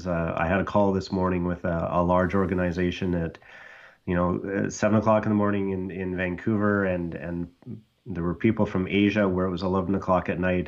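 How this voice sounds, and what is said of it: Slightly hoarse voice. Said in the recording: “my voice is probably sounds a little hoarse because it is a little hoarse”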